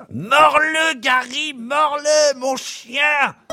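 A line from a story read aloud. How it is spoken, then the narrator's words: Shouting. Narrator (French): il crie à son sale kleps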